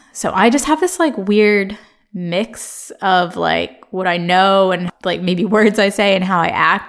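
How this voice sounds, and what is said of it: American accent. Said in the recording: “I'm very American... This is a very American accent that's never going to change.”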